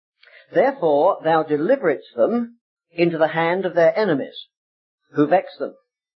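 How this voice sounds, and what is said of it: Anglicized English accent. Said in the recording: “my anglicized accent”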